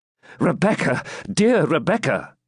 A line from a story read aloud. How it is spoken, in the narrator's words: exclaimed Ivanhoe